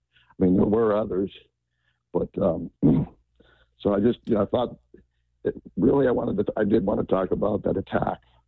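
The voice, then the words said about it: Strained, fading voice. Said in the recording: “I'm losing my voice here”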